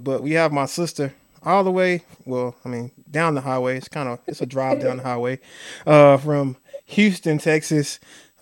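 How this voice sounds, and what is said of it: Slight Southern country twang. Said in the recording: “I have a little twang, so I might say that a little country”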